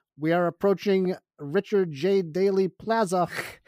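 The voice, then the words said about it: Put-on Chicago accent. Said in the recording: “I can do the accent. Because I'm from here.”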